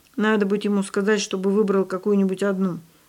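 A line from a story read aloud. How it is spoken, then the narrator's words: Grumbling. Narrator (Russian): пробурчал Павлик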